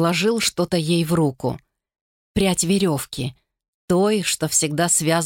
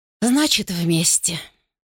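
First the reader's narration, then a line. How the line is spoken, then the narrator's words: Resigned sigh. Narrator (Russian): Думаи вздохнула, покорившись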